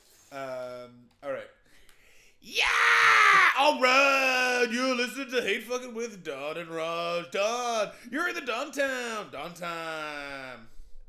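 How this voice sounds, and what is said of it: Intense, over-the-top radio DJ voice. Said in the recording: “I'm going to do like a really intense radio voice, kind of like the douche from Parks and Rec.”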